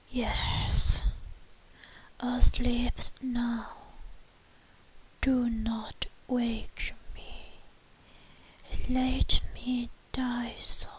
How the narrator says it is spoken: lips moved sluggishly in a barely audible whisper issued the words

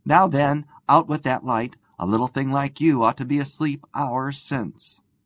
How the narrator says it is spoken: Jim cried gaily

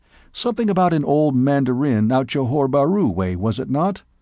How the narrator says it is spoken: asked Burton

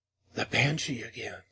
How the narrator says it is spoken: said Moya faintly

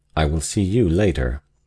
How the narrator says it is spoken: he said, coldly but significantly

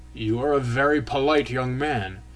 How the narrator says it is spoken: he suddenly began in a dry, sharp, snuffling voice

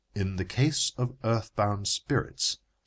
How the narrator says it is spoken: said my authority

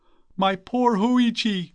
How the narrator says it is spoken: cried the startled priest

